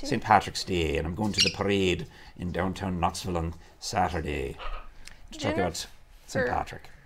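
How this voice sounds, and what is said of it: Put-on Irish accent. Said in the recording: “I'm going to talk to you in an Irish accent ... your Irish accent”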